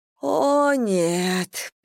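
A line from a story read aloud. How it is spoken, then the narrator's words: Moaning. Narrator (Russian): простонала Анна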